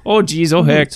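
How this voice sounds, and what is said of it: Bad put-on Minnesota accent. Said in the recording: “I just do a really bad Minnesota accent. I just completely miss the mark.”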